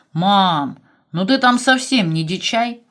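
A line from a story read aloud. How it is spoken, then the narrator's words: Grumbling son. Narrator (Russian): ворчал сын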